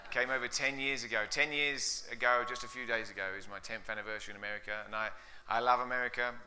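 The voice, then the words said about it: English accent. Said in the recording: “you can tell my accent isn't from Colorado. It's from out east. ... from England”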